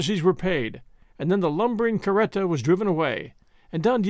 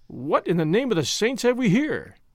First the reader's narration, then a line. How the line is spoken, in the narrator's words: he exclaimed